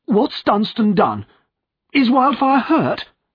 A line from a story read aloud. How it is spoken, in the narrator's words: asked Godfrey crossly